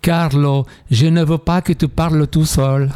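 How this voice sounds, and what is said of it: Put-on Italian accent. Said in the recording (French): “Avec l'accent italien.”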